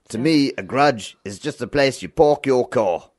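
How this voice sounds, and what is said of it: Put-on South African accent. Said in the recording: “to get into a South African accent ... That was pretty good. ... Yeah, that's not bad. ... Such a fun accent.”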